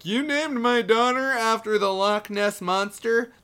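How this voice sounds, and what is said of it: Imitates another person's voice. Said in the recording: “That's my Kristen Stewart impression.”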